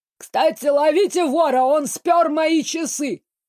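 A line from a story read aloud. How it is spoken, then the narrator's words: Sobbing. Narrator (Russian): разрыдался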